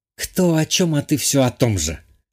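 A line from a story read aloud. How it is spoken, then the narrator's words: Hissed. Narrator (Russian): подруга прошипела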